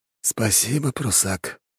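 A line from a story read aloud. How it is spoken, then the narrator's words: Quiet. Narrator (Russian): тихо сказал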